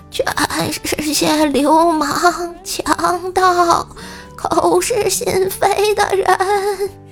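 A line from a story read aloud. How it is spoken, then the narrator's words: Hoarse rich man. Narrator (Chinese): 富翁嘶哑着嗓音说道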